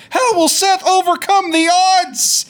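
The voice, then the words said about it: Imitates another person's voice. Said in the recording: “pretty good impression”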